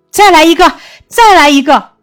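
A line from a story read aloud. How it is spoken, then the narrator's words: Shout from crowd. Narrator (Chinese): 人群中还有人大喊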